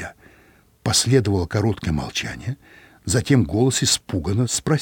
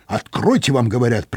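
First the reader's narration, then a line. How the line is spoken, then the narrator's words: Sharp shout. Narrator (Russian): прикрикнул я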